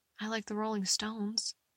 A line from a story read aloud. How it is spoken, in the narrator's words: Gareth finally says quietly